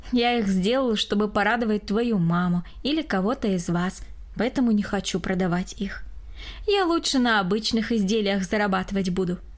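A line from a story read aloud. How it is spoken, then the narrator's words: Calm answer. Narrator (Russian): спокойно ответил Григорий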